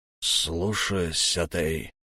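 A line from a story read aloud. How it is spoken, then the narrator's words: Gruff mutter. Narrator (Russian): буркнул якудза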